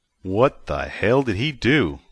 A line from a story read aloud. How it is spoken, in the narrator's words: Vic asked